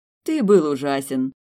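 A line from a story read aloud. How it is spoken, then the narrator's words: Laughing. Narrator (Russian): рассмеялась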